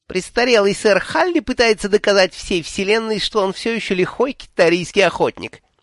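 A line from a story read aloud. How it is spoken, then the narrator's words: Sarcastic squeak, small child. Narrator (Russian): язвительно пискнул малыш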